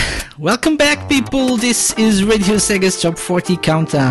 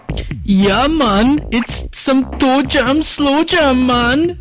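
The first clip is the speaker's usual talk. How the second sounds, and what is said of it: Put-on Jamaican accent. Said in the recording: “my awesome Jamaican accent.”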